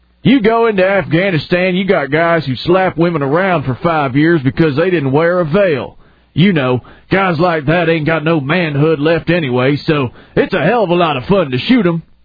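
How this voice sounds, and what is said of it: Put-on redneck accent while quoting. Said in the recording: “it's kind of a redneck attitude ... I was adding the accent.”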